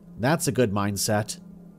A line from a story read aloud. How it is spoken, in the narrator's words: he said